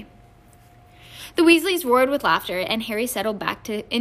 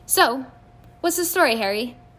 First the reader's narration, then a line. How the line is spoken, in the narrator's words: Ron said impatiently